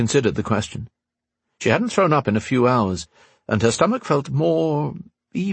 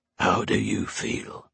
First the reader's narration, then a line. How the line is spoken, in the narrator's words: Terin whispered